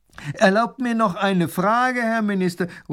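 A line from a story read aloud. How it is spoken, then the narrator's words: Man calling from crowd. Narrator (German): ruft ein Mann aus der Menge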